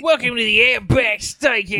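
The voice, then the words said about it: Put-on Australian accent. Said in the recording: “use a Australian accent though, like to kind of sell it”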